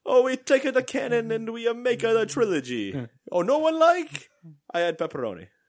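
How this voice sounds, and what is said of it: Mario character voice. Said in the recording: “Disney hired Mario ... I do that voice”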